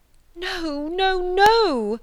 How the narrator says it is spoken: cried Marianne wildly

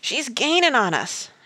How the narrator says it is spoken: shouted Mountain Jim

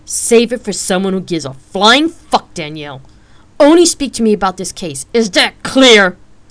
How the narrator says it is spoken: Rain spat out fiercely, with hate

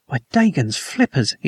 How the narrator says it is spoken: he gasped

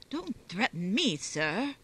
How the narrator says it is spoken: he said sharply

